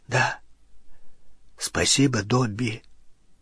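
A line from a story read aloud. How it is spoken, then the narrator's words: Throat-clearing, hoarse. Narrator (Russian): Рон прокашлялся и хрипло сказал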